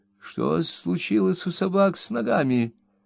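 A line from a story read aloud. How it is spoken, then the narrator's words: Whisper. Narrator (Russian): прошептал мистер Уинг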